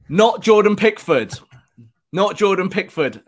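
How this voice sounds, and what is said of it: Shouting into the microphone. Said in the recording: “I'm shouting. ... I'm literally shouting at it.”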